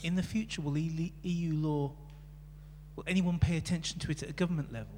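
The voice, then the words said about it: British accent. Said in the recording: “by your accent, you were from the UK”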